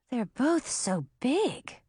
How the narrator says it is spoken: breathed Millie

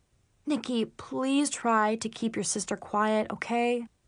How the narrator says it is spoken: Dad pleaded under his breath

